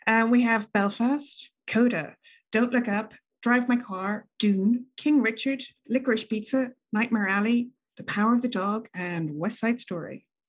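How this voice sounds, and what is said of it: Announcer-style podcast voice. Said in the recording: “in best podcast voice”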